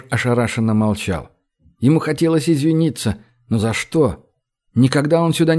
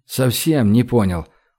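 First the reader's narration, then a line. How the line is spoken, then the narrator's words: Dejected repetition. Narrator (Russian): упавшим голосом повторил Гош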